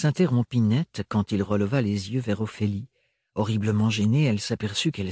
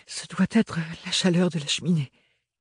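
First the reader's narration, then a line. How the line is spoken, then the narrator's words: Stammered. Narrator (French): bredouilla-t-elle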